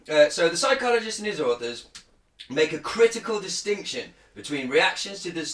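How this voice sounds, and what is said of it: Usual voice. Nothing is said of it.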